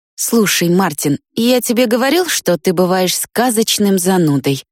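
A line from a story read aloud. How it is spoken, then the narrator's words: Grumbling. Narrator (Russian): проворчал Вик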